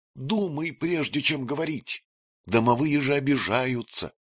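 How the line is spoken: Whispered warning. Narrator (Russian): шепотом предупредила Ирка

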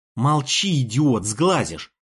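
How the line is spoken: Irritated hiss. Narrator (Russian): зашипела на него Аврора, которую, видимо, комментарии нашего отрядного ворчуна достали

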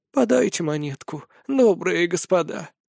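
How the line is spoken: Feigned old voice. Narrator (Russian): заговорила старческим голосом Ревекка

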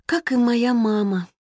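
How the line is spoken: Sighed. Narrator (Russian): вздохнула Роза

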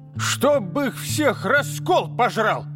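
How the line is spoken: Old woman barking angrily. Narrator (Russian): рявкнула бабка, вскакивая

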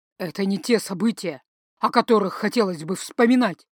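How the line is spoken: Overly sharp reply. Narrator (Russian): Излишне резко откликнулся он

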